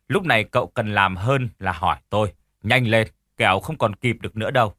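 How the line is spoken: Cold old man. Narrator (Vietnamese): Ông già lạnh lùng nói tiếp

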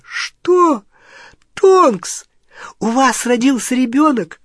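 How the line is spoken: Ecstatic squeal. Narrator (Russian): Гермиона восторженно завизжала

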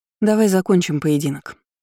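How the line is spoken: Plain. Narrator (Russian): сказала ей

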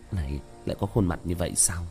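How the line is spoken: Low muttering. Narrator (Vietnamese): Tiểu Thất thấp giọng lẩm bẩm

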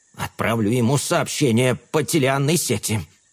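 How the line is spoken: Gloomy mutter. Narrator (Russian): мрачно буркнул Карл

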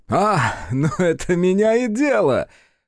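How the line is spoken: Young man chuckling. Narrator (Russian): хохотнул юнец

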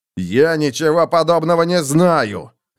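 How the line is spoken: Barked. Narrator (Russian): рявкнул двуручный меч

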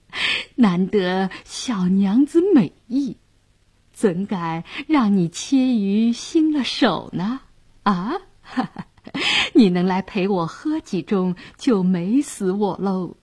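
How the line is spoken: Leering laugh. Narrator (Chinese): 杨衙内色眯眯地笑道

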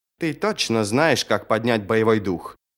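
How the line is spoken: Muttering. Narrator (Russian): пробормотала Сумаэль

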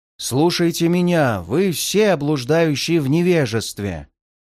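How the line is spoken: Thundering over a roar. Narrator (Russian): прогремел я, заглушая гул кружащегося торнадо

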